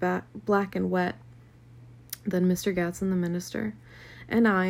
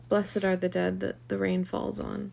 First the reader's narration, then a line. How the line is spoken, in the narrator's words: Dimly heard some murmur